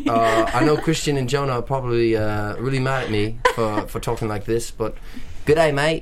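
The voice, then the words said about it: Put-on English or Australian accent. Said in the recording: “Throw out your English accent. ... My English accent would be a little bit more like this, I think. ... Now we're going to Australia. We're talking Australian ... accent.”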